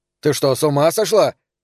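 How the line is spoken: Shouted. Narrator (Russian): закричал Фрэнки

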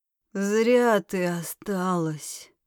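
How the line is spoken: Unusually hoarse voice. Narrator (Russian): раздался несвойственный Карелю хриплый голос

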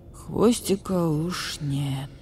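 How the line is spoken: Old badger's sleepy mumble. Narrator (Russian): сонным голосом пробормотал барсук-старший

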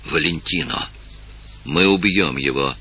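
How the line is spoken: Whisper. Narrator (Russian): прошептал Эндема

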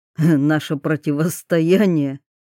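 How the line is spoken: Mocking question. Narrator (Russian): насмешливо спросил Щепкин

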